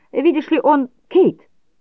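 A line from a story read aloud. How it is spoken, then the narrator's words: Shout. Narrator (Russian): крикнул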